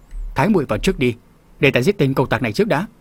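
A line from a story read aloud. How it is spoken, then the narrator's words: Angry shout. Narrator (Vietnamese): Hồng Phong nương tử tức giận quát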